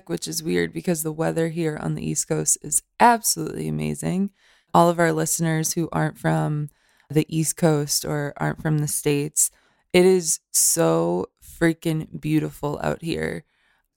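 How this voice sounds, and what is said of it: Raspy, hoarse voice from illness. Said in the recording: “My voice sounds way sexier than it used to with this rasp right now. ... I'm getting a little sick”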